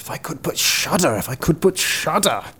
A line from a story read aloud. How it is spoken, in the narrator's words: The youth … once more began to mutter to himself